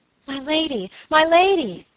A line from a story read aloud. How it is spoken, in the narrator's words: cried Phoebe